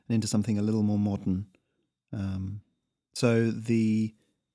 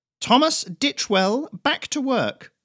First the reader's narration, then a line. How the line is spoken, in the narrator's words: snapped the overseer